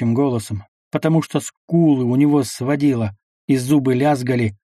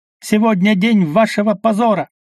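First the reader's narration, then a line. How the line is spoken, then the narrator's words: Shouting. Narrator (Russian): кричал он генералу Левингаупту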